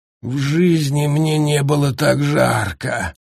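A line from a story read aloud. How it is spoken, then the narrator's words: Nasal voice. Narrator (Russian): прогнусавил Скрам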